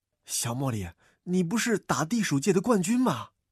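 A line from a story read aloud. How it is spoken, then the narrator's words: Quiet wry question. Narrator (Chinese): 喵卷卷苦笑了一下，小声问道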